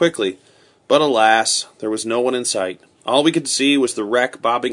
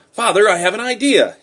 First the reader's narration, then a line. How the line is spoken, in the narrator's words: cried